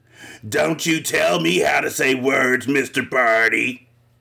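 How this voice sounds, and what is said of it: Stuffed bear character voice. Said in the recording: “in her stuffed bear voice”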